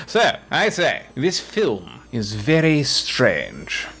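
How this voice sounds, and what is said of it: Posh British accent. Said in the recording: “I'll start speaking in a British accent ... This is a very posh accent.”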